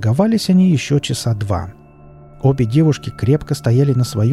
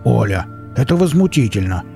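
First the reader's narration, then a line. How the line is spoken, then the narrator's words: Growled. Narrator (Russian): рыкнул Велес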